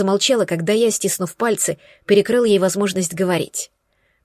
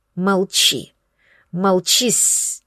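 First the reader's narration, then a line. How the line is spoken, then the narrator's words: Drawn-out first letter. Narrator (Russian): протянул первую букву ее имени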